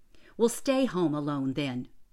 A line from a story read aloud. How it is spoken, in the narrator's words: her mother said sharply